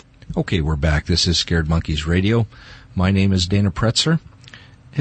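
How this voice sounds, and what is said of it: Usual voice. Nothing is said of it.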